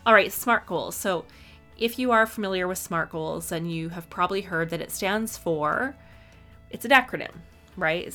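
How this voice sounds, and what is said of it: Slightly raspy voice, cutting out. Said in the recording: “I am still recovering from this flu. So my voice is a little raspy. It's cutting out a bit.”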